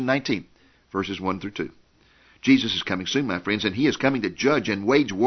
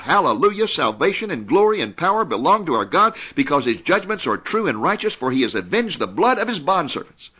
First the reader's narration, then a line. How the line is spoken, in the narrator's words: all of heaven is going to shout